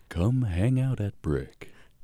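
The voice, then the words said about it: Smooth radio announcer voice. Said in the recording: “Say that in your radio voice. ... Whoa. ... Dude, it's so good. ... It's really good. New host.”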